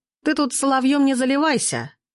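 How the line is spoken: Short laugh. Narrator (Russian): хохотнул Арсений

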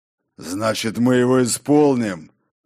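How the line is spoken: Growl. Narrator (Russian): прорычал Тор

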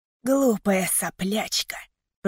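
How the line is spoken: Hissing. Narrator (Russian): прошипел он

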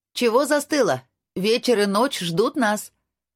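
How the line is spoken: Smiling shout. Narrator (Russian): с улыбкой крикнула Анастасия

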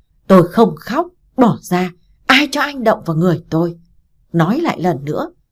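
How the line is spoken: Loud wild yelling. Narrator (Vietnamese): to mồm gào lên như đứa dở hơi

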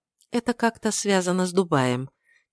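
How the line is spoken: Quiet. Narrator (Russian): тихо произносит Рори

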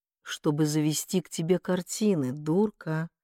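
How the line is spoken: Affectionate. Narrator (Russian): Ласково проговорил он

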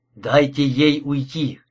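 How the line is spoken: Hoarse request. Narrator (Russian): хриплым голосом попросил

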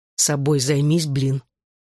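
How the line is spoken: Gruff mumble, suppressing tremor. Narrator (Russian): буркнул я, подавляя дрожь от ее прикосновения

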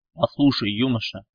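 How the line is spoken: Sharp, clipped. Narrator (Russian): Резко и чеканя слова, будто шаг по плацу отбивая, ответил генерал

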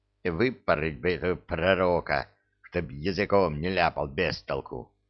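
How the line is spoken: Embarrassed jester muttering. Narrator (Russian): буркнул смущенный скоморох

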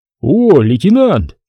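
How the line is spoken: Cheerful shout. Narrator (Russian): весело кричал Глыба

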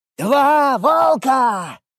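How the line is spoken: Joyful yelling. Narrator (Russian): орал Джазмен, подпрыгивая и громко радуясь

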